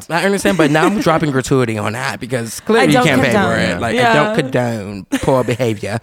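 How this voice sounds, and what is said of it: Put-on British accent. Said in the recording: “Oh, no, the British accent is here. ... I'm going to always talk in a Brit.”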